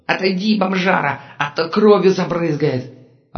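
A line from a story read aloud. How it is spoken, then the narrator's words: Yelling. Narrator (Russian): орал торговец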